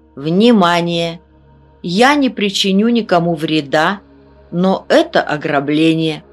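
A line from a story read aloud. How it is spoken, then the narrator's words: Loud old man. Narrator (Russian): Дед громко сказал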